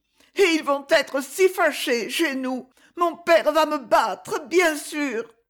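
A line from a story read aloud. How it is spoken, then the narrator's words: Heavy sobbing. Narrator (French): Et les sanglots recommencèrent plus fort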